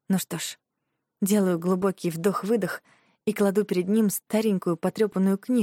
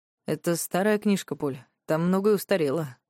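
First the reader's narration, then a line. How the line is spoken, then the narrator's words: Calm. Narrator (Russian): произносит спокойно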